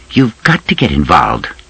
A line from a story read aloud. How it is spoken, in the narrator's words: she said sharply